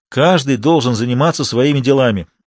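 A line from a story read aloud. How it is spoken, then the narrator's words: Grumbling. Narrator (Russian): ворчал Максимов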